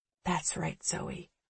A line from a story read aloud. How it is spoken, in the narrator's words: I say softly